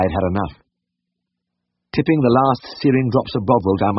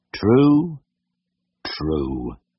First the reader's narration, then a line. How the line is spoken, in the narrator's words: muttered Ernest, seemingly content with his role of straight man